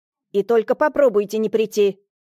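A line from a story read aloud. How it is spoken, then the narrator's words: Barking snap. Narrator (Russian): рявкнула Татьяна Ивановна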